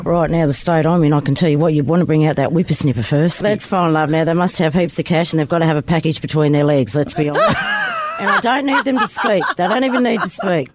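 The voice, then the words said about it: Very fast speech, strong accent. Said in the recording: “She talks really fast with an accent ... Tasmanian”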